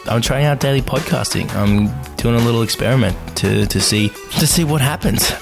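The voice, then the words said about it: Australian accent. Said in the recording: “I am Australian, as you might tell from the accent.”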